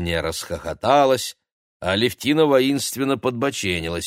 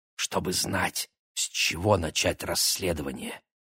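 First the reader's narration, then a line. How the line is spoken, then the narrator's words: Conspiratorial whisper. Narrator (Russian): заговорщически шепнул близнецам Игорь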